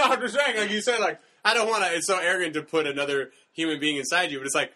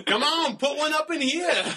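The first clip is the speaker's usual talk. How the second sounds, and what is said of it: Put-on Romanian accent. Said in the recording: “What accent is that? ... It's Romanian.”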